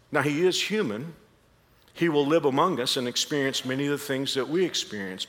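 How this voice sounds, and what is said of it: Texan accent with long A's. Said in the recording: “I can't get rid of the Texas accent. The long A's give me away.”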